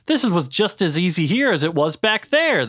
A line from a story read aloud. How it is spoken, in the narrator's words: the fox yelled